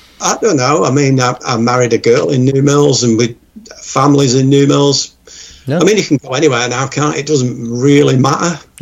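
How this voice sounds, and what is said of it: Northern English accent. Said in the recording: “it's still the north. It's the north... you can tell by his accent, can't you?”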